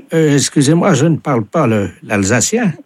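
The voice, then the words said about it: Speaks French with a noticeable accent. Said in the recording (French): “j'entends votre accent, oui. ... Madame dit qu'elle entend votre accent.”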